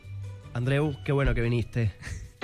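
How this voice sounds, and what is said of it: Imitates another person's accent. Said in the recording (Catalan): “Com et diria amb el seu accent”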